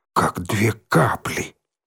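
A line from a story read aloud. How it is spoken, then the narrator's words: Whisper then yell. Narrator (Russian): Прошептал лохматый и заорал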